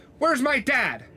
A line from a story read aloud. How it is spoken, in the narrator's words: I yell